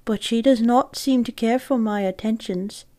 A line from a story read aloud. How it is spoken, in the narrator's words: he said sadly